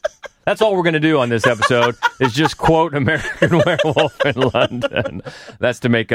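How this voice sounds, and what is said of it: Usual voice. Nothing is said of it.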